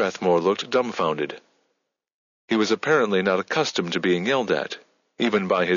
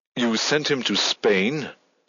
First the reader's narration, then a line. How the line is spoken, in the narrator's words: Her tone turned angry